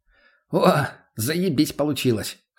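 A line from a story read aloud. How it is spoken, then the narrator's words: Chuckling laugh. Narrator (Russian): хохотнул он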